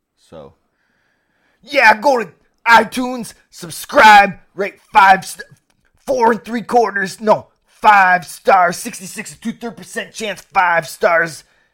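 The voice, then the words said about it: Imitates another person's voice. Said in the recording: “one more Scott Steiner impersonation”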